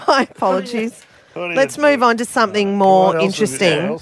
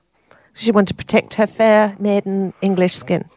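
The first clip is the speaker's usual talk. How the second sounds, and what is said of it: Put-on English accent. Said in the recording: “It's my second English accent.”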